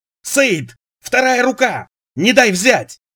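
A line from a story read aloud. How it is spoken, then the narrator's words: Desperate shout. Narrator (Russian): В отчаянии закричал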